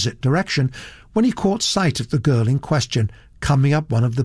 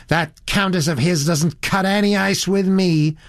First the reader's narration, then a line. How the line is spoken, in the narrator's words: said the girl in a rather high, shrill voice